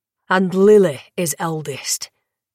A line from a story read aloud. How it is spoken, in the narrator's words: the Dragan growled